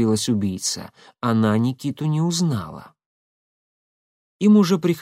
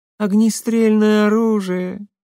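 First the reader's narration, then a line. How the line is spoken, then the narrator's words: Disappointed drawl. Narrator (Russian): разочарованно протянула Шахиня, увидев пистолет в его руке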